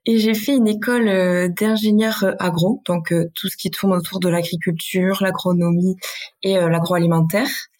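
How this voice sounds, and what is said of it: Basque French accent. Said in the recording (French): “je viens du Pays Basque, peut-être que ça va s'entendre dans mon accent.”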